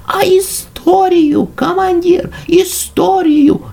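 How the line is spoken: Shouted in chorus. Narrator (Russian): закричали мы

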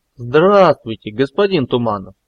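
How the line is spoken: Exaggeratedly cheerful exclamation. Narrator (Russian): Преувеличенно радостно воскликнул Велес

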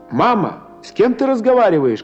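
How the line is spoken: Shouting from next room. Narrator (Russian): кричала из соседней комнаты Варя

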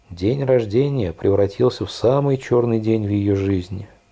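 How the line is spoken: Sad sigh. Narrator (Russian): с грустью вздохнула Голди

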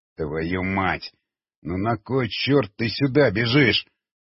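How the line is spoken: Through gritted teeth. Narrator (Russian): процедил сквозь зубы Григорий

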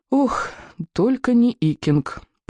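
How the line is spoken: Groaning boys in chorus. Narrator (Russian): простонал пьеседух Тугодум, а вслед за ним и другие мальчишки

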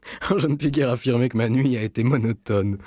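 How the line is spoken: Laughing. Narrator (French): dit-il en riant

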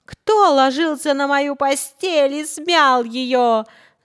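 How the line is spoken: Quiet growl. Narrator (Russian): зарычала Настасья Петровна не так громко

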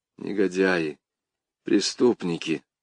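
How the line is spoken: Quiet. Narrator (Russian): говорю тихо

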